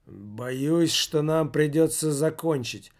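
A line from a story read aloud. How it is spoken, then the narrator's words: Gloomy speech. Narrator (Russian): мрачно проговорил Михалыч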